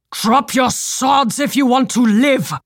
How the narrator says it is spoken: roared Captain Clemson's voice with such authority it rose above the chaos

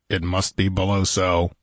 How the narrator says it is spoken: muttered Conan, feeling the pulse in his temples pounding with impatient eagerness

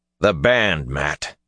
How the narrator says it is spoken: Rand snapped

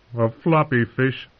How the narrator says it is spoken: said, laughing

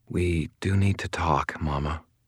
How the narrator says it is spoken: Molly said in a gentle tone

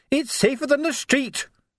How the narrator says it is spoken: she yelled back, nose to nose with him

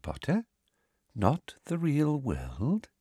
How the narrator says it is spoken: she said softly

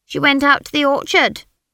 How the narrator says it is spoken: said Gulter

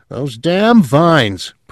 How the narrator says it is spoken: Perrine grumbled

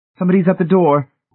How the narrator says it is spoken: Marcia said frantically

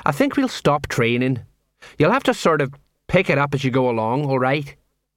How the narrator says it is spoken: He sighed

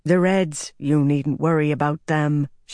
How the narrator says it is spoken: she said in her light Tarabonner accent

